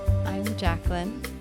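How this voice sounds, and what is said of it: Smooth jazz radio voice. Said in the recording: “Oh, it's a very smooth jazz radio voice.”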